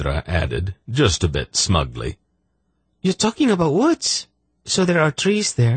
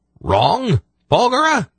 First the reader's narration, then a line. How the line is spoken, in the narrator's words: He spluttered